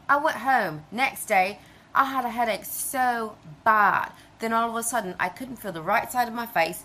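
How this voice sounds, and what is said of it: Unusual foreign-sounding accent. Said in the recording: “This is the accent that came out of my face... Foreign accent syndrome”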